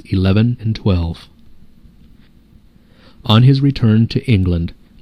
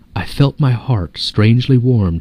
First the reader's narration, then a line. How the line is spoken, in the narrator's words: he says